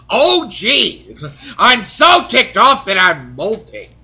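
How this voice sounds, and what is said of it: Imitates another person's voice. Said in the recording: “a cheap Gilbert Gottfried impression ... it's actually a pretty good Gilbert Gottfried impression”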